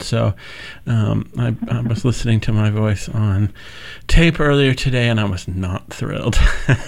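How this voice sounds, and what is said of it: Congested voice from a cold. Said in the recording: “I have a cold ... it sounds, vaguely sexy”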